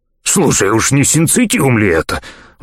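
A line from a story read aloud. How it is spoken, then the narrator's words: Excited question. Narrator (Russian): взволнованно спросил Нагтрекс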